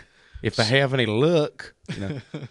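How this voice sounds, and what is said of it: Folksy drawl dropping G's. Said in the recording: “dropping his G's... my best impression... that's a great Will Rogers... It's pretty decent.”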